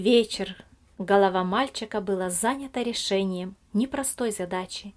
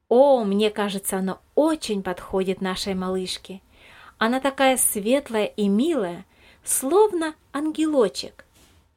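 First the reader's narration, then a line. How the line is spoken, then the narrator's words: Joyful agreement. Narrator (Russian): радостно согласилась Елизавета Михайловна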